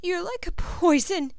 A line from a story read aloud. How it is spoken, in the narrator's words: she cries in a tiny voice